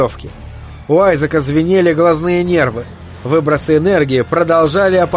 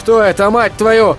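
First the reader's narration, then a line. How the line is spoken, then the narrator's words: Shouted. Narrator (Russian): крикнул он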